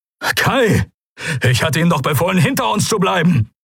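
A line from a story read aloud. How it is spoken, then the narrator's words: Called out. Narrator (German): rief Helios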